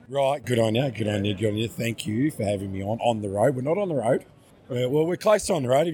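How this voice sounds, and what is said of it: Weak, failing voice. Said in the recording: “I have to speak very closely because I lose my voice.”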